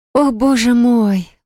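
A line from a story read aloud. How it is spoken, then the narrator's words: Breathless exclamation. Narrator (Russian): выдохнула Селина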